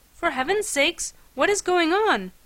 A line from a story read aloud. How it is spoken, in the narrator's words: my companion inquired, urgently this time